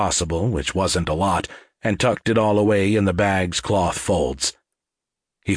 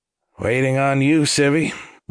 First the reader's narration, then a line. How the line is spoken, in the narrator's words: Wallace answered dryly and with a twinge of impatience